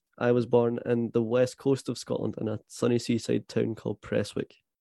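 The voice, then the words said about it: Scottish accent. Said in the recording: “if the listeners haven't gathered by my accent, I am very much Scottish.”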